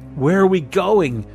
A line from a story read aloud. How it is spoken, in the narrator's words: an elder voice called out of the officers